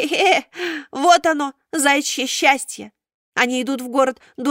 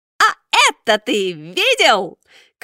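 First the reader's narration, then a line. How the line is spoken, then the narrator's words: Shouting into ear. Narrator (Russian): крикнул ему в ухо Буратино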